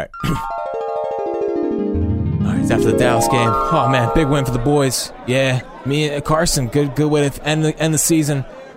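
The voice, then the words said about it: Imitates another person's voice. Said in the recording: “I'm going to try to do his voice. I don't know if that's going to work well”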